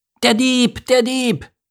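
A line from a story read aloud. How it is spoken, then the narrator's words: Excited seagull shrieking. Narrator (German): kreischte eine aufgeregte Möwendame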